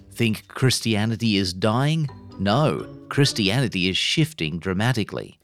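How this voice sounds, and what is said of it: Put-on Washington Post reading voice. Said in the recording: “doing his Washington Post voice”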